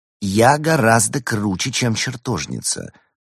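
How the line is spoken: Calm remark, cat. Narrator (Russian): спокойно заметила кошка

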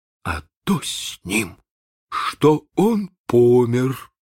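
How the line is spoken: Muffled reply. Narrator (Russian): отвечал глухо Чекко

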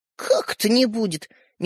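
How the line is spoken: Doubtful snort, boy. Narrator (Russian): недоверчиво хмыкнул мальчишка

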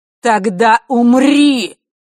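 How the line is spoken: Roaring. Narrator (Russian): взревела Елена

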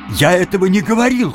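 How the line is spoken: Shout. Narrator (Russian): крикнул Тим

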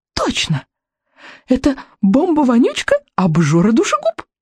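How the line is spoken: Delighted exclamation, dragoness. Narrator (Russian): воскликнула дракониха восторженно

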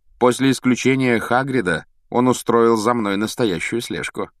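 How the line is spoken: Mocking remark. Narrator (Russian): насмешливо заметил Реддл

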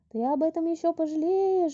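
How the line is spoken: Sudden thin shout. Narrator (Russian): вдруг прокричал тоненький голосок над самым его ухом

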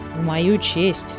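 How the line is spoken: Gloomy. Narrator (Russian): мрачно заметил Муми-тролль

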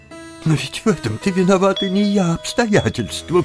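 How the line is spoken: Sobbing. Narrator (Russian): всхлипнула фрау Талер

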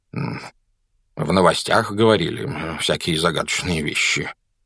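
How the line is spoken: Muttering. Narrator (Russian): пробормотал мистер Дурсль

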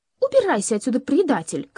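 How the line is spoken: Breathless furious shout. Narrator (Russian): крикнула она, задыхаясь в ярости

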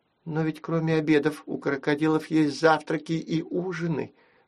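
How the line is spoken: Timid interjection. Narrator (Russian): робко вставила Нюсяка

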